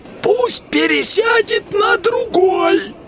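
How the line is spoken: Hoarse voice. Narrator (Russian): хриплый голос

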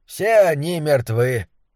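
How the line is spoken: Impassive tone. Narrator (Russian): бесстрастным тоном сообщил он

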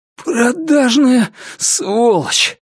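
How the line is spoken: Hoarse rasp. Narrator (Russian): прохрипел он

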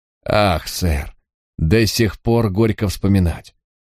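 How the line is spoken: Sighing. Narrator (Russian): Он вздохнул

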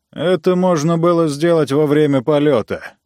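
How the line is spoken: Grumbling. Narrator (Russian): проворчал Ранситер

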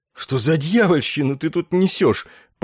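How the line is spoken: Panicked wheeze. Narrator (Russian): панически всхрипнул Есариан

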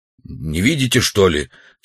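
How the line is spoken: Angry question. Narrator (Russian): все так же сердито спросил Удалов

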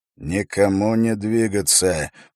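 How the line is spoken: Quiet command. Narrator (Russian): приказал Эрик тихо

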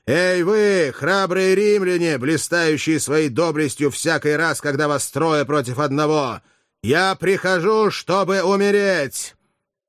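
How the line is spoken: Thunderous shout. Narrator (Russian): Крис закричал громовым голосом

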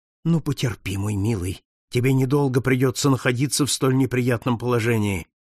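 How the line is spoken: Mutter. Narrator (Russian): пробормотал Пинкертон

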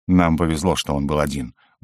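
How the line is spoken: Grumbling. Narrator (Russian): буркнул Алистан Маркаус

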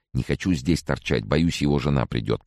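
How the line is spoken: Whisper in the ear. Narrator (Russian): прошептал он мне на ухо

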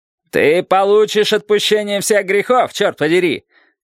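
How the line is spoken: Shouted, knight. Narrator (Russian): крикнул рыцарь

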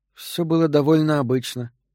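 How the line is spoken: Sighing. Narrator (Russian): вздохнула Энн

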